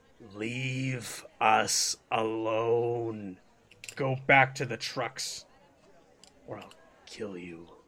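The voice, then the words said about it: Deep hypnotic character voice. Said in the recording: “his voice is deep”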